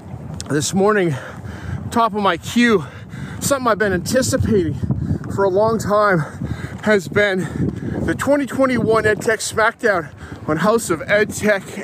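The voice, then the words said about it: Out of breath, panting. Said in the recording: “coming up a hill here, out of breath.”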